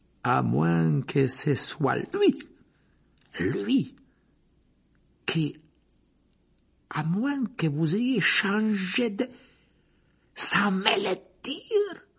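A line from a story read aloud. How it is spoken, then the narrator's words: Slowly. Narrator (French): Lentement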